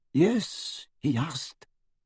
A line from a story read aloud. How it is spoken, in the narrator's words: whispered Ollivander